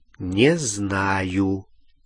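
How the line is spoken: Slow answer. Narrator (Russian): медленно ответил Гарри

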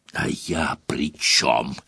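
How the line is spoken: Hissing. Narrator (Russian): зашипел дядя

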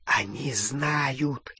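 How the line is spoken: Whisper in ear, goblin. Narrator (Russian): зашептал крюкохват на ухо Гарри

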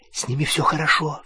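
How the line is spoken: Whispered. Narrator (Russian): зашептала она

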